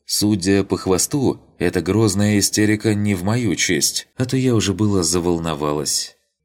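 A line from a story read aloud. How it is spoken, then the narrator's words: Calm summary. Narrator (Russian): она спокойно резюмировала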